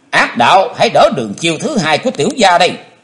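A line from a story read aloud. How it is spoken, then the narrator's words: Deep heavy shout. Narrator (Vietnamese): trầm nặng thét lên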